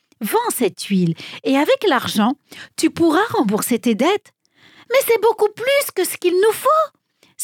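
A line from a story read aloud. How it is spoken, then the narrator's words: Widow exclaiming. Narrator (French): s'écria la veuve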